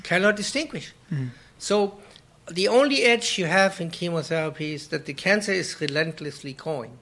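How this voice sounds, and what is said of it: German accent. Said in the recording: “my German. Oh, my accent.”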